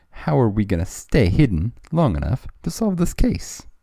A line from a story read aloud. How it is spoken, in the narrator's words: Spencer laughed